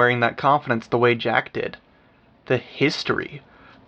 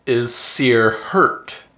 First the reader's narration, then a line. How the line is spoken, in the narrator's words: Defiant growled the words